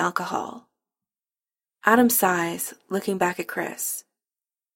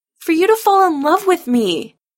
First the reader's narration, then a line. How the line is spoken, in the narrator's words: Adam shouts back